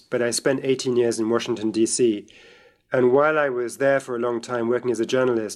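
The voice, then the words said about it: British accent. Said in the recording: “I grew up in Britain, as you can tell from my voice”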